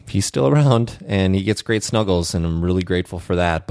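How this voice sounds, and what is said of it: Subdued, quiet tone. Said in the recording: “the tone of my voice might sound a bit subdued”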